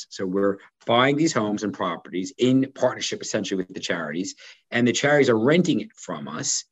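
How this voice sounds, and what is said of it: Non-American English accent. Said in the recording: “as you would say in the States, despite my accent.”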